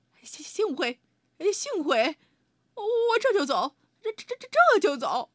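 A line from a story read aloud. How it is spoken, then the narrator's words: Stammering. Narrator (Chinese): 他结结巴巴地说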